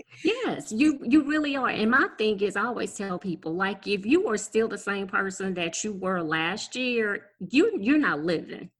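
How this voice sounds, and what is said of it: Regional American accent. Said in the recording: “I hear an accent.”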